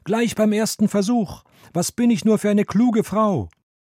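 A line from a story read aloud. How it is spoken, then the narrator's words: Called out. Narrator (German): rief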